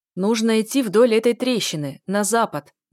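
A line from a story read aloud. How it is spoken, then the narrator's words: Loud, frail old man. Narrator (Russian): громко говорил сухонький старичок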